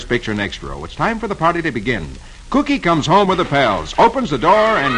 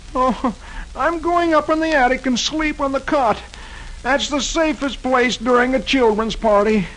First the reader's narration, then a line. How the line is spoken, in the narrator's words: he groans